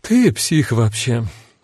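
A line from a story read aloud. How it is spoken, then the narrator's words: Sighing. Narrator (Russian): вздохнула Кара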